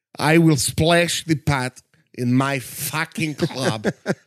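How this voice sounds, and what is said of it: John Malkovich as Teddy KGB, Russian accent. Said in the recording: “Malkovich is all over the place... He's a Roomba let loose in an accent room.”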